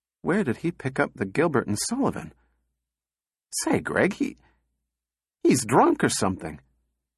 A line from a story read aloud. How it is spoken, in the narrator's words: Donovan said weakly